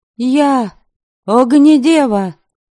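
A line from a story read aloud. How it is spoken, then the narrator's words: Shouted. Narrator (Russian): крикнула Девляна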